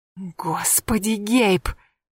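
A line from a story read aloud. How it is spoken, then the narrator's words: Furious hiss. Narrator (Russian): прошипела она, яростно сверкнув глазами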